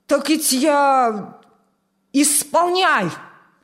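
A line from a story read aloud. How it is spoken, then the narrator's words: Barked command. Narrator (Russian): рявкнул командир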